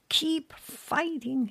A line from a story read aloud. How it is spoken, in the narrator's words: he shouted